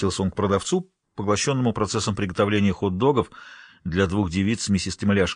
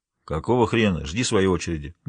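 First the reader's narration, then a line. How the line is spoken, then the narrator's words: Grumbled, head down. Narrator (Russian): буркнул, не поднимая головы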